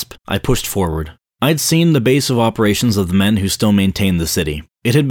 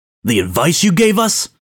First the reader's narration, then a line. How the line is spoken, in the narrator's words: shouted, angrily